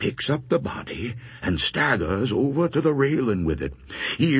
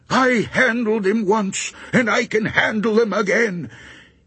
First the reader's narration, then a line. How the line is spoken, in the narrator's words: starts yelling